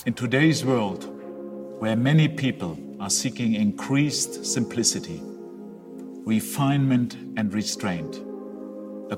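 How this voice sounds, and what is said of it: German accent, Bond-villain-like. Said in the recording (Dutch): “hij heeft een Duits accent ... Hij heeft een beetje het accent van een villain, van een slechterik in een Bondfilm”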